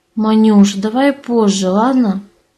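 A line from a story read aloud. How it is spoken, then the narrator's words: Sleepy mumble. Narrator (Russian): сонно пробормотал муж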